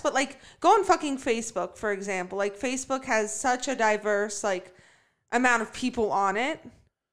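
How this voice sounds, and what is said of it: Yelling, passionate loud speech. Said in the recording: “I'm yelling because I'm very passionate. I'm outraged.”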